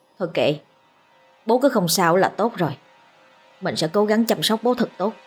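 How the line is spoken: Mutter. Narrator (Vietnamese): Nó lẩm bẩm

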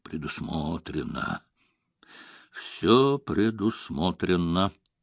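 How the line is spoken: Muttering. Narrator (Russian): пробормотал Мегара

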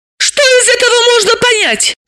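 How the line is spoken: Shout. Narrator (Russian): закричала Далила

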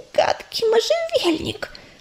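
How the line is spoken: Child's fading whimpering whisper. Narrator (Russian): прошептала малышка и снова принялась хныкать, но голос ее постепенно слабел

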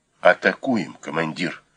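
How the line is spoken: Whispered. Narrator (Russian): прошептал кто-то

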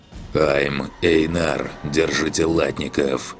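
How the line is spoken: Growling in strange voice. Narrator (Russian): Каким-то чужим голосом рычу в канал я

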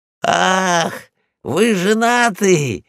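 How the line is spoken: Exclaimed. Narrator (Russian): воскликнул я

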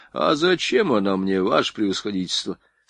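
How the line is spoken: Calm objection. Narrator (Russian): спокойно возразил поручик

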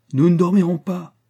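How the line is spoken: Exclaiming. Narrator (French): s'écria Rastignac

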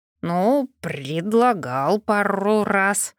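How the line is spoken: Guilty growl. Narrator (Russian): прорычал виноватый голос, напрочь лишаясь убедительности

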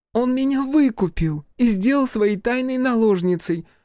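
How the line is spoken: Shrieked. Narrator (Russian): завизжала Игураси

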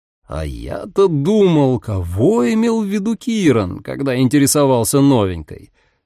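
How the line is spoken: Courteous, menacing drawl. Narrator (Russian): Любезным тоном протянул Дамиан, отчего его голос зазвучал еще опаснее

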